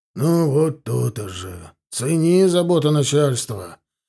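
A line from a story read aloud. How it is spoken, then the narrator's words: Kindly grumble. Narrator (Russian): благожелательно проворчал Лука Куприянович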